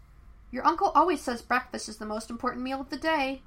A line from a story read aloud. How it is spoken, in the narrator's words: Aang said earnestly